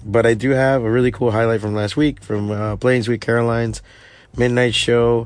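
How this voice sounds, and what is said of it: Hoarse, failing voice. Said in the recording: “my voice is a little going to shit”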